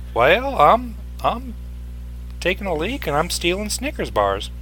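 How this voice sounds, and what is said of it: Fake Southern accent. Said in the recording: “Why are you talking like that? ... You don't have a southern accent. You are from the South, but you don't have one, which means you probably are faking it.”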